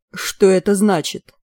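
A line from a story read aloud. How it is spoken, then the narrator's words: Distorted voice. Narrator (Russian): спросил искаженным голосом доктор Гленворд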